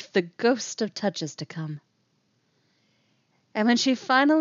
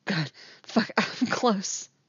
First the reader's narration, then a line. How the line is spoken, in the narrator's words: she whimpers